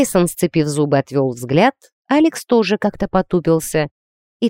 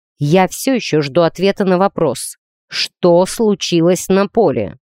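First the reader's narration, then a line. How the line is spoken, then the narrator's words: Iron-toned interruption. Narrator (Russian): Железным тоном перебил его тренер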